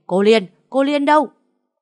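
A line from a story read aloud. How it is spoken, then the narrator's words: Enraged yell. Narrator (Vietnamese): Khánh Vân điên tiết la lên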